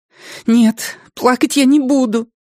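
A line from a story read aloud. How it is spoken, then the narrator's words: Angry, tearful. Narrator (Russian): сердито бросила она, но слезы все равно потекли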